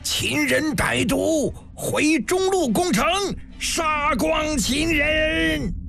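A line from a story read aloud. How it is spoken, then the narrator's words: Furious roar. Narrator (Chinese): 心猿眼跳脚狂吼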